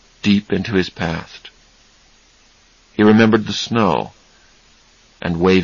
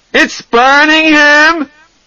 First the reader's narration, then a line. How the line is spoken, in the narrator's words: He screamed